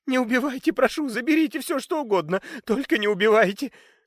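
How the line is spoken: Sobbing plea. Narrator (Russian): Рыдая, молила Фелиция

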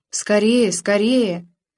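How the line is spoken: Group exhaling together. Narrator (Russian): Ребята с передовой это заметили и выдохнули разом

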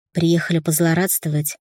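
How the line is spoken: Calm question. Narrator (Russian): спокойно спросила она

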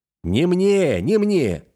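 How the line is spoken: Shouting over everyone. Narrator (Russian): закричал я, стараясь всех переорать

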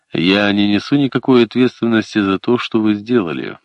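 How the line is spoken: Grim statement. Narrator (Russian): мрачно заявил Харли

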